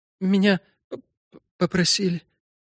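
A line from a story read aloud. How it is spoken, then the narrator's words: Barely audible. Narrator (Russian): еле слышно произнесла она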